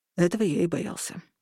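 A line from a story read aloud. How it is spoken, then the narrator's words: Quiet. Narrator (Russian): сказал он тихо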